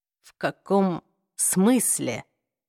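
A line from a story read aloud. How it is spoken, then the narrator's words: Whispered. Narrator (Russian): прошептал Джейс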